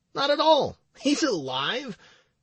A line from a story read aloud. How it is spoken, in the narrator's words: another voice replied in a chipper tone